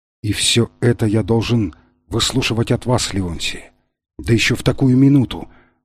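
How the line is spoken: Sad whisper. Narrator (Russian): с грустью прошептал он

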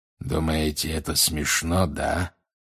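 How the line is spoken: Growling. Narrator (Russian): прорычал он

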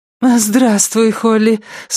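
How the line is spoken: Thin, high voice. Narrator (Russian): сказала Черити таким тонким голосом, что сама удивилась

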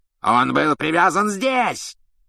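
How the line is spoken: Furious yell. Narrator (Russian): с бешенством заорал палач Макнейр

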